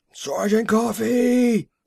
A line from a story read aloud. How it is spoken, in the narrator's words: roared the voice